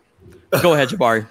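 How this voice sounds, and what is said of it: Imitates another person's voice. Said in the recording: “I'm going to do my best impression of um, what's the the Clippers owner's name? I'm blanking on uh, Steve Ballmer.”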